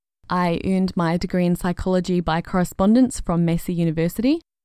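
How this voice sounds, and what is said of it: New Zealand accent. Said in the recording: “I was born in and grew up in Christchurch, New Zealand ... So I apologise if this accent is difficult to understand.”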